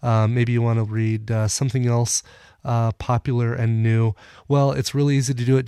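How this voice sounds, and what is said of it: Deeper, congested voice. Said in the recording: “apologize for my voice ... I sound a little bit deeper, a little bit more congested ... getting over a cold”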